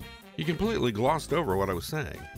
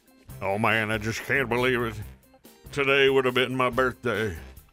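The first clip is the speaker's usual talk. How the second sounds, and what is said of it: Imitates a famous singer's voice. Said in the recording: “Was my impersonation that bad? ... Oh, that was Elvis? ... That was actually an Elvis impersonator that I used to listen to on the radio”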